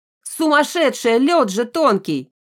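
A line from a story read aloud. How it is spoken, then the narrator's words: Woman in crowd yelling. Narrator (Russian): вопит какая-то баба из толпы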